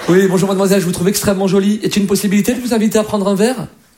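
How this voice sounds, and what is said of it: Put-on posh Parisian accent. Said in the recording (French): “par rapport à l'accent ... un Parisien, quand il drague, c'est quand même classe”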